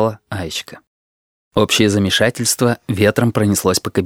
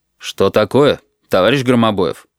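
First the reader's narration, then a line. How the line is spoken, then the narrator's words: Stern question. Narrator (Russian): строго спросил Сергей Иванович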